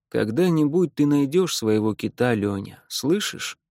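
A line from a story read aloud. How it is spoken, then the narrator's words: Plain. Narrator (Russian): говорит он мне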